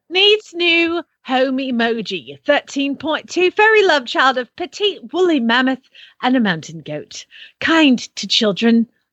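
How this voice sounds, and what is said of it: Awkward put-on British accent. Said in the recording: “You get all the accents today. ... Oh, this is in the UK. ... I can't do it. It's just terrible. It's embarrassing.”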